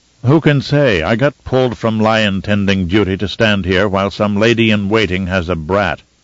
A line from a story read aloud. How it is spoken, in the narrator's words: DeVries said, his voice gruff with disgust